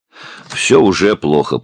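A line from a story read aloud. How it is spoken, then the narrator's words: Grumbling official. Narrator (Russian): проворчал Торсит Магнессон, начальник управления общественной безопасности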